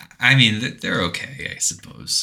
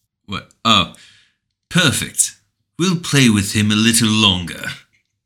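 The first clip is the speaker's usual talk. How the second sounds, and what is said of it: Imitates a British man's voice. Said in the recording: “And then the British man goes, you want to say this? ... Thank you for that impersonation.”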